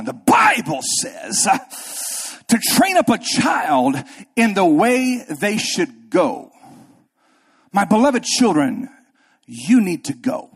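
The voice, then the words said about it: Preacher voice. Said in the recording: “I put my preacher voice on.”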